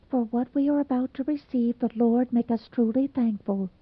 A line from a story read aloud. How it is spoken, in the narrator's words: Cyrus, blushing beet red, murmured almost inaudibly